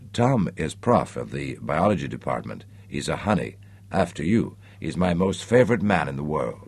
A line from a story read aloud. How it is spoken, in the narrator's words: she nuzzled Nicholas's ear and whispered